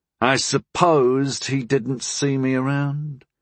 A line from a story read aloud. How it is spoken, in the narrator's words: Harm muttered